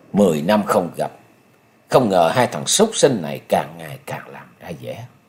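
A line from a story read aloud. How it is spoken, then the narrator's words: Cold muttering. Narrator (Vietnamese): Nhậm Sơn Bạch ... lạnh lùng, chàng lẩm bẩm nói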